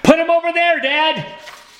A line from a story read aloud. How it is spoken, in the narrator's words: Toby shouted